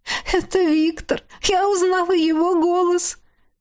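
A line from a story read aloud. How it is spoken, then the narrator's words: Sobbing. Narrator (Russian): Всхлипывала она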